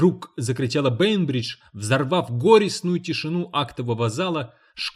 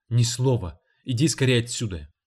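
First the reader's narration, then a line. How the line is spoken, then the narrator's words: Anxious command. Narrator (Russian): Роберта встревоженным голосом приказала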